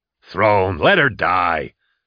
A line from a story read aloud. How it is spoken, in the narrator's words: Nail barked